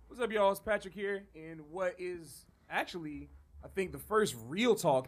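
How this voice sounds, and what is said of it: Rough voice from a cold. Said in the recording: “if my voice sounds a little weird right now ... I was fighting a cold and coughing a lot ... my voice is a little messed up right now.”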